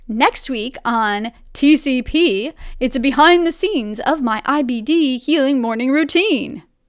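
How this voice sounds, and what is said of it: Cheesy announcer voice. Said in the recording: “a bit cheesy ... Possibly I just need to lose the announcer voice.”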